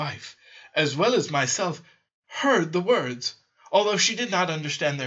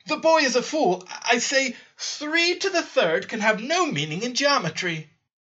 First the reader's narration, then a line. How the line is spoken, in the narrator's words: again exclaiming